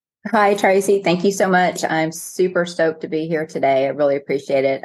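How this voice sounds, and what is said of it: Texan accent. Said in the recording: “I am from Texas, just in case you can't tell from my accent. ... I love the accent.”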